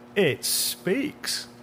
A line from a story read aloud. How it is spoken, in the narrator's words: the man said and let out a pleasant laugh